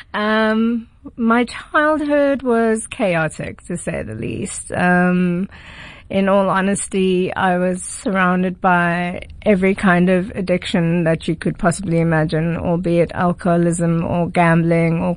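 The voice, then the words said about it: Posh private-school accent. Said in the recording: “This is a very expensive accent that I have that comes by a private school and theatre school.”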